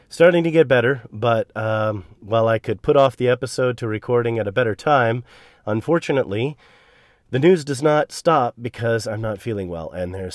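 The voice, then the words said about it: Slightly subpar, under-the-weather voice. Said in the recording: “I've been under the weather with the usual seasonal cold ... if my voice sounds a little subpar today, that's because it is”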